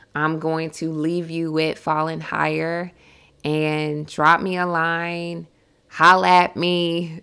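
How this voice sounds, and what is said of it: Hoarse, strained voice. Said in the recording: “My voice is getting hoarse.”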